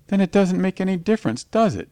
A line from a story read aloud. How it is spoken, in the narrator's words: moaned Gawain